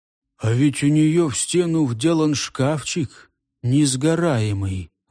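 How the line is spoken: Sudden hollow, choked voice. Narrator (Russian): вдруг сказал он глухим голосом, точно у него что в горле перехватило

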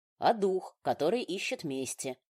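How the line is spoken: Calm explanation. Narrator (Russian): спокойно пояснил Риган

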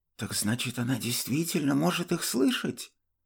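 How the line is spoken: Whisper. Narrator (Russian): прошептал мне Зен

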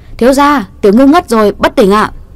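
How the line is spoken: Loud call from above. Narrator (Vietnamese): Lục Phong trên ban công lớn tiếng hô

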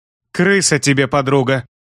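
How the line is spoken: Snapping retort. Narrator (Russian): огрызнулась она

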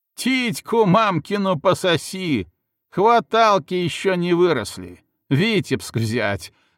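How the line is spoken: Jeering laughter. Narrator (Russian): захохотали на стене

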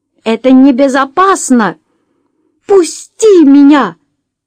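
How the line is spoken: Shouting. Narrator (Russian): закричала она

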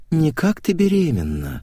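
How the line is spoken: Purring. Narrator (Russian): промурлыкала Наташа

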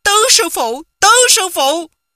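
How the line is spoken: Calling out. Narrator (Vietnamese): Quách Tĩnh kêu lên

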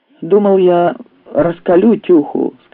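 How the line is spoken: Plain. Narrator (Russian): сказал Клыч

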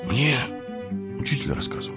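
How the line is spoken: Embarrassed boy's mumble. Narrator (Russian): пробормотал мальчик, будто смутившись

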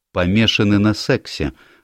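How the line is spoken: Plain. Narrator (Russian): ответила Элизабет Уиттейкер

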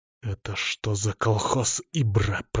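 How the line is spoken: Through clenched teeth. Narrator (Russian): процедил я

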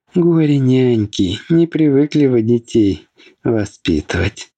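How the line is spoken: Laughing. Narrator (Russian): рассмеялась Фелиса

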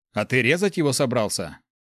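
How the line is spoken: Cleric's scoffing snort. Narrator (Russian): хмыкнул клирик

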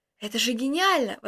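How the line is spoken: Exclamation. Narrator (Russian): воскликнул я

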